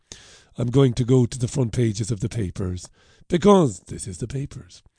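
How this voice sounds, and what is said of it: Heavy, congested voice. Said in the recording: “my voice might sound a bit heavy this morning because I'm smothering with a bit of a head cold”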